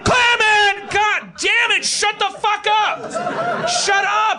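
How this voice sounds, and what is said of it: Yelling like an angry parent. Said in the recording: “Stop yelling at your kid”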